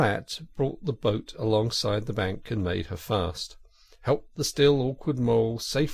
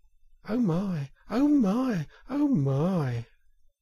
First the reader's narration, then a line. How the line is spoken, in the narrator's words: the mole could only hold up his forepaws and gasp